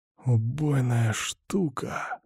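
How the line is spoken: Reverent whisper. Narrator (Russian): с благоговением прошептал я

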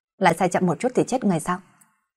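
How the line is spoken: Fierce, menacing. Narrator (Vietnamese): là một cái mặt ác quỷ hung ác với hắn rồi nói

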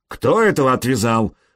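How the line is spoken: Barked. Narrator (Russian): рявкнул толстяк

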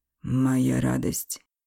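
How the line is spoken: Breathed out. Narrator (Russian): выдохнул он

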